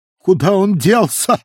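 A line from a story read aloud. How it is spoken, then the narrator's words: Exclaiming. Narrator (Russian): воскликнула Титания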